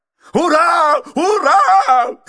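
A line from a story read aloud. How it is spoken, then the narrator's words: Excited shouting. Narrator (Russian): кричал мистер Адамс, возбужденно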